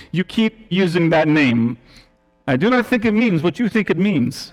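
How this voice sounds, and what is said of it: Poor put-on Spanish accent. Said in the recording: “the poor Spaniard accent”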